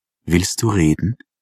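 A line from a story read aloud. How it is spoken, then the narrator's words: Gentle question. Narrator (German): fragte die Christine sanft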